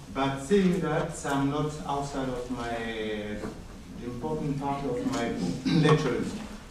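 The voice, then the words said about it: French African accent. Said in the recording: “my French African accent”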